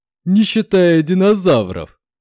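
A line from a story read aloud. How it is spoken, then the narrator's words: Chuckle. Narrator (Russian): хохотнул сержант Дылда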